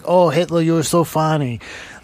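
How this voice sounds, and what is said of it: Bad unidentifiable put-on accent. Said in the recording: “I don't know what accent that was. That was terrible... Lithuanian.”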